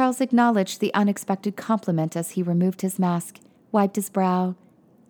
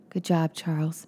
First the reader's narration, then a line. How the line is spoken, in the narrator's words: Eugene said weakly